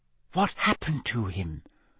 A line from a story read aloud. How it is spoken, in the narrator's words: Hermione whispered